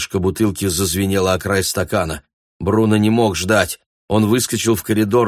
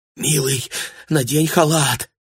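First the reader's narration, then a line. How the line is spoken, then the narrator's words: Mother whispering. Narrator (Russian): прошептала мать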